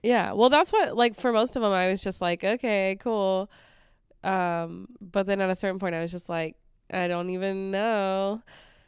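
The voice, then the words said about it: Sick-sounding voice. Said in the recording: “I'm sick today. So that's why my voice sounds like this.”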